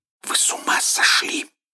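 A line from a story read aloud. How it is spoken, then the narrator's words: Angry whisper. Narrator (Russian): она сердитым шепотом говорила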